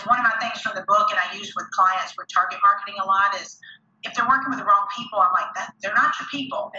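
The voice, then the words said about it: Slight Southern US accent. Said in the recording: “I live in the South, got a little bit of a Southern accent”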